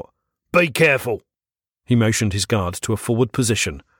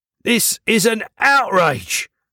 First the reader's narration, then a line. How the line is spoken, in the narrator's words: he called out, his voice carrying across the town square